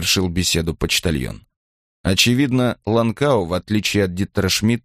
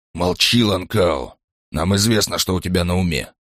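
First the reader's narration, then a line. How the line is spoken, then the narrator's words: Stern call. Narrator (Russian): призвал Крёнер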